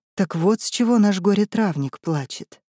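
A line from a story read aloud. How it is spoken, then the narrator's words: Breathed out. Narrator (Russian): выдохнула Сденка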